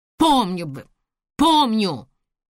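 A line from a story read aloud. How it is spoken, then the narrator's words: Angry, through gritted teeth. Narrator (Russian): Зло процедил он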